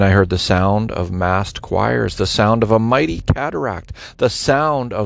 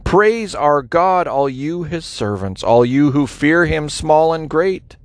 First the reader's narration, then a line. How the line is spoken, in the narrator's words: From the throne came a shout, a command